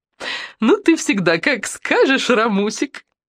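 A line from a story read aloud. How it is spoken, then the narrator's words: Giggled. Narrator (Russian): хихикнула администраторша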